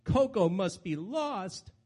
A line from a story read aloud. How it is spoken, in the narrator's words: cried aloud